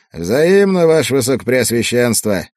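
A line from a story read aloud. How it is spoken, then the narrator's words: Laughing. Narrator (Russian): Хендрик рассмеялся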